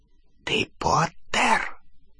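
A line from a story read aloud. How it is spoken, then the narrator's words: Whispered. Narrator (Russian): прошептала она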